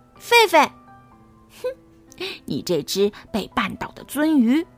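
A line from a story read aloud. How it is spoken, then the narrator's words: Mocking, jeering. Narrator (Chinese): 比比嘲笑他说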